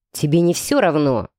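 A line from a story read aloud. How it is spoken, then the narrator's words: Growling man. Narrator (Russian): рыкнул мужчина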